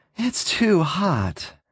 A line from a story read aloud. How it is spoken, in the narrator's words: she gasped